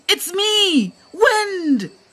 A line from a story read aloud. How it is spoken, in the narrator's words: shouts Thembela